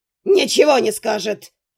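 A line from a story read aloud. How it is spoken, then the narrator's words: Old man barking. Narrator (Russian): рявкнул старикан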